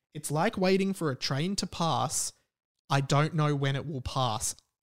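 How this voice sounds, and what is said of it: Australian accent. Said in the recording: “I'm saying it in my Australian accent.”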